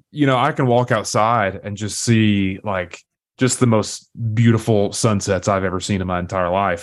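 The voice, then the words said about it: Southern US accent, East Tennessee. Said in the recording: “I grew up and still live in East Tennessee. I don't know if you can tell by my accent or not. I still can't decide if I have a strong Southern accent”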